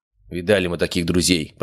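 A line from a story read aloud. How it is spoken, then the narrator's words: Grumbling voice from crowd. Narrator (Russian): пробурчал все тот же голос из середины кучки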